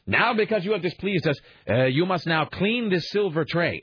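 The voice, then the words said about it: Weird nondescript put-on accent. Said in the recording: “I say in a weird nondescript accent”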